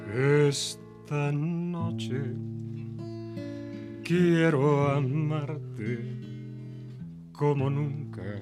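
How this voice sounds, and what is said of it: Sung imitation of another singer's voice. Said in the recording (Spanish): “imitación de ese gran amigo nuestro, ese cantante ... La imitación de Pedro Vargas ha sido genial”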